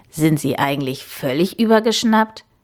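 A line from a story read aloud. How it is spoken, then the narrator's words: Croaking. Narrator (German): krächzte er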